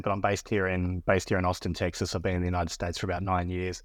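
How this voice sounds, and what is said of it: Australian accent. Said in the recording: “I'm Australian, as you can probably tell by my accent”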